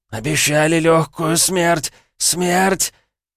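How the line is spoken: Wheeze rising to shriek. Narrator (Russian): Хрипы перешли в визг

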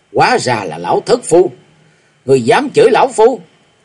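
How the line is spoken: Shouted. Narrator (Vietnamese): Bạch Hàm Như lên tiếng quát

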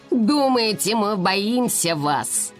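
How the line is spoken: Angry growl. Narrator (Russian): разозлил, прорычала

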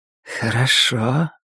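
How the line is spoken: Sweet, slightly husky voice. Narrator (Russian): все тот же сладкий и слегка хриплый голос

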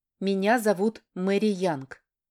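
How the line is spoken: Calm mother replying. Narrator (Russian): спокойно отвечает мама

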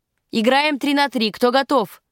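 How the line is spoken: Shouting. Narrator (Russian): крикнул Гарднер

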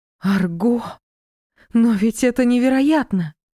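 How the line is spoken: Breathless delight. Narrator (Russian): Восторженно выдохнула я

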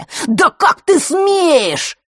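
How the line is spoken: Shrill shout. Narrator (Russian): визгливо выкрикнул Марк

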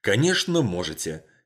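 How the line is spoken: Angry declaration. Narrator (Russian): сердито заявила Сьюзан

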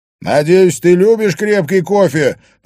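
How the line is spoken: Shouted into another room. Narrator (Russian): прокричал Харри в гостиную

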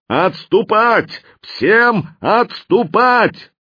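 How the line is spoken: Thunderous shout. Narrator (Russian): Слон громовым голосом проорал

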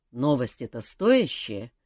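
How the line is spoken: Tired. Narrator (Russian): устало уточнил босс

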